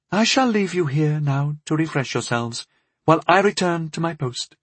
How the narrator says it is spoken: Audrey said in his musical voice

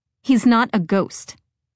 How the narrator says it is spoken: I snapped

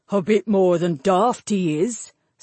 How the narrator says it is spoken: snorted

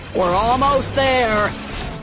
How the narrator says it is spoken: Han hollered

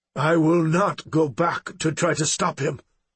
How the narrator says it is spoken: he stated firmly

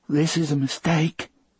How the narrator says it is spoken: Brutal said in a hissy little voice

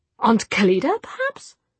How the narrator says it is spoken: she said in a puzzled voice

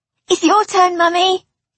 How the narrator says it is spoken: Jamie squeaked

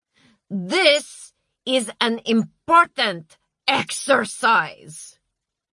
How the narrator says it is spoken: shouted Marcia

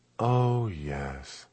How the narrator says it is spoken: a sad sigh

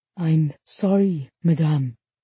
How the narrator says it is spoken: he said softly

